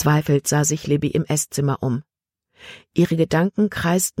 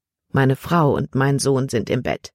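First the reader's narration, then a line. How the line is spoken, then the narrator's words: Plain. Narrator (German): antwortete Herr Kimberly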